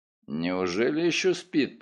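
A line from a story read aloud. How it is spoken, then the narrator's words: Muttered. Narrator (Russian): пробормотал я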